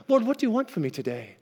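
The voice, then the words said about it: Imitates another person's accent. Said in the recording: “just like Audrey did in the video ... I can get the accent right”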